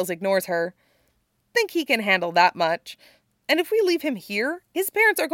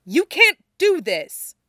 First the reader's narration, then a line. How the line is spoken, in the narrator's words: Henry snaps